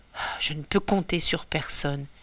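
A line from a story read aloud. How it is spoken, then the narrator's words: Murmuring. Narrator (French): murmure Ulysse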